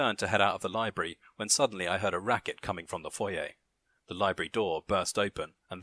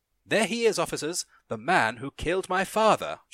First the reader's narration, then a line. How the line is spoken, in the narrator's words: cried